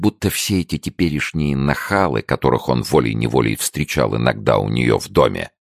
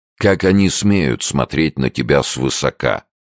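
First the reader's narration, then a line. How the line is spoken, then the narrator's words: Grumbled. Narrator (Russian): проворчал Сомс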